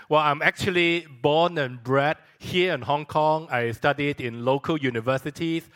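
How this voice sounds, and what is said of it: Singaporean-accented English. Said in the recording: “I do have some Singapore accent.”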